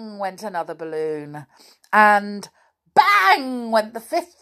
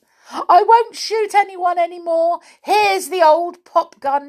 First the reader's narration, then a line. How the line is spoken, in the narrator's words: cried